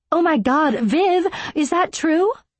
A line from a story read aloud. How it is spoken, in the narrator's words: Allison shrieked